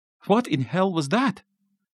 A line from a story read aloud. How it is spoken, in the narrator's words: Martin asked, his voice shaking worse than the balcony had